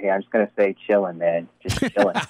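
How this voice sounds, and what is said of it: Imitates another person's voice. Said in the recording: “my best Q impersonation”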